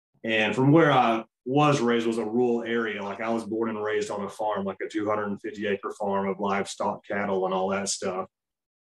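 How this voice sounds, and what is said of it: Southern American accent. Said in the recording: “I was born and raised in the South in Arkansas, and my accent, I can't hide that either”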